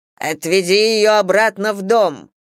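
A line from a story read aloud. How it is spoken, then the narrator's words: Thundering voice. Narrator (Russian): прогремел Мэтью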